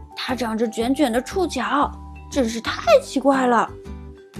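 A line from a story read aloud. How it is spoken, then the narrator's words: Low exclamation. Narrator (Chinese): 多腿萌娃斯奇达低声叫道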